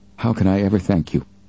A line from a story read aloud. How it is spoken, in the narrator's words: There were tears in his wife's eyes, and her voice trembled as she added her appreciation